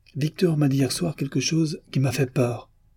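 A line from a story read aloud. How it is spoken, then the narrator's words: Unsteady voice. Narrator (French): commença Demian d'une voix mal assurée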